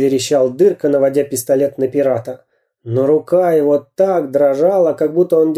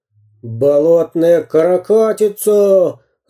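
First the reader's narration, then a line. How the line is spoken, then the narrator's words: Growling pirate. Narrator (Russian): рычал пират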